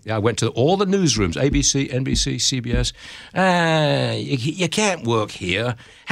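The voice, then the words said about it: English accent. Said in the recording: “I couldn't get a job because of my English accent ... How could we put you onto a murder in Oakland with a voice like that?”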